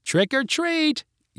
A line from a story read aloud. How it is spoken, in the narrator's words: yelled the four kids